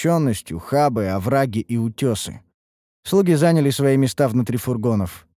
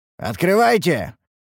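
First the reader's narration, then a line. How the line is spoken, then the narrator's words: Shouted command. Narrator (Russian): прикрикнули мы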